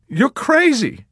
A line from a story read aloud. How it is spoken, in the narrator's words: cried, imploringly